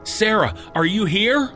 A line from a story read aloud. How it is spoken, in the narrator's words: I shouted into the house